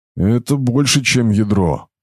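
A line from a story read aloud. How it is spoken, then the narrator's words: Hoarse, breaking with excitement. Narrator (Russian): голос Брахмы немного хрипел, ломаясь волнением первооткрывателя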